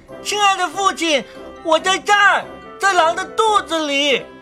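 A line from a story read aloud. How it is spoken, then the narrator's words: Calling out. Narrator (Chinese): 大拇指…喊道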